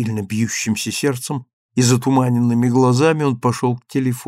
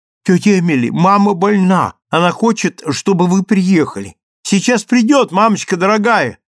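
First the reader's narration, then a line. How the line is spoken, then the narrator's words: Shouted. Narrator (Russian): прокричал он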